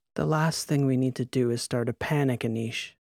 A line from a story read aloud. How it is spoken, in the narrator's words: said, sipping her wine, sighing